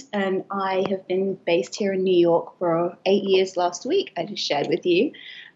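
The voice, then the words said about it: British accent. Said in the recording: “I'm British, as you can hear from my accent”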